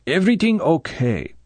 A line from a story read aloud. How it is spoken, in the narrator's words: Quarrel repeated, his voice careful